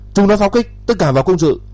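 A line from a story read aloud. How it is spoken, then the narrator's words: Loud shout. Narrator (Vietnamese): hét to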